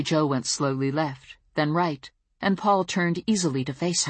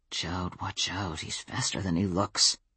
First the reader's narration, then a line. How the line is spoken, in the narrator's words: He was tense beside me, muttering